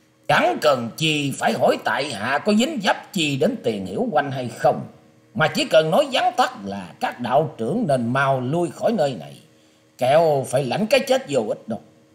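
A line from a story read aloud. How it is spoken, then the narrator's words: Harsh voice. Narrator (Vietnamese): Văn Nhân Đạt cất giọng gai gắt nói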